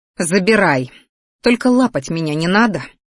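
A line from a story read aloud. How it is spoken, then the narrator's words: Smirking snort. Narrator (Russian): хмыкнула я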